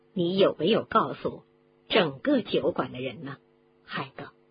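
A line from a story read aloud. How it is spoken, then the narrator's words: Angry. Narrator (Chinese): 麦克教授愤怒地说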